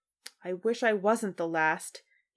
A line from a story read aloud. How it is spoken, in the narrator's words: he groaned